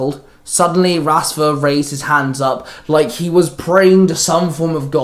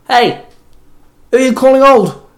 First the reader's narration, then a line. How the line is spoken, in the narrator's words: Zack barked